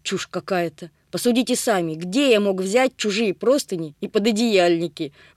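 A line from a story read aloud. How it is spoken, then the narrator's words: Snorting. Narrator (Russian): фыркнул мужчина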